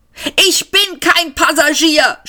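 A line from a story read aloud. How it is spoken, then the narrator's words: Shouted again. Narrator (German): schrie Seyfort nochmal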